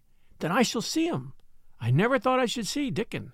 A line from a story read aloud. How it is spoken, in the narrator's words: exclaimed Mary